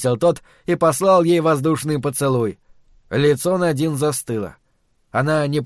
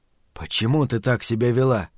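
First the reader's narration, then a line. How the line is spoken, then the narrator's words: Quiet question. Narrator (Russian): спросил он женщину тихо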